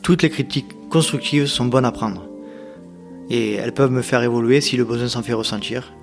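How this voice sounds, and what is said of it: Northern French regional accent. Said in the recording (French): “mon accent du Nord-Pas-de-Calais”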